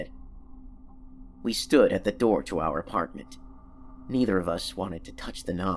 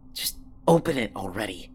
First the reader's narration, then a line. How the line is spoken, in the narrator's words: I hissed